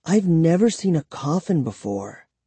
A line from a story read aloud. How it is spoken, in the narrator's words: Kara murmured